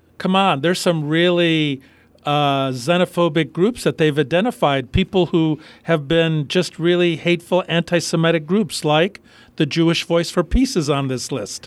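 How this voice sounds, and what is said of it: Sarcastic delivery. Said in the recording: “I'm being sarcastic”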